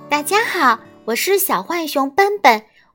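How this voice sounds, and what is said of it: Crisp, clear voice. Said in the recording (Chinese): “小浣熊用清脆的声音说”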